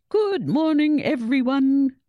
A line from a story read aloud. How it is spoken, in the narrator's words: boomed the headmaster's cheery voice over the school's PA system